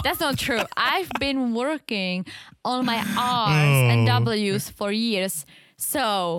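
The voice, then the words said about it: Czech accent. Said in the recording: “You have a Czech accent ... I know I still have an accent and I still sound very foreign”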